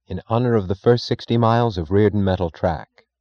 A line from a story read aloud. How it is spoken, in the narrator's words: she answered